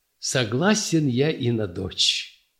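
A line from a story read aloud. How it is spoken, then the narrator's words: Laughing. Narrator (Russian): засмеялся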